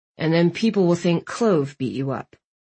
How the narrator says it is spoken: Landon grumbled

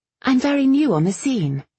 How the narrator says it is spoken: she said quickly

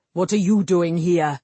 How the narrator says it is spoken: Cullen snapped

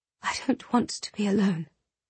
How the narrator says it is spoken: she whispered against her pillow

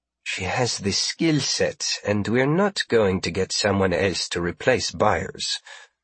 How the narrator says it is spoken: Marie said evenly

